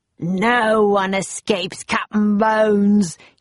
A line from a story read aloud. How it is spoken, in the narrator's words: he roared